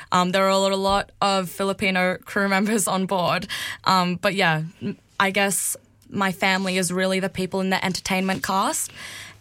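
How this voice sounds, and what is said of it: Australian accent. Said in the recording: “I'm from Australia and my accent is so, I guess, will catch people off guard”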